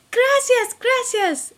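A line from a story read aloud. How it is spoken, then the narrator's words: Exclaimed. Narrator (Spanish): exclamé Camila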